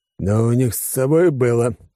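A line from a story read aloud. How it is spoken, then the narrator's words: Grumbling mutter. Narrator (Russian): пробурчал Алекс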